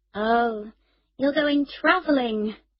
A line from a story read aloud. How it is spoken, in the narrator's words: she said wearily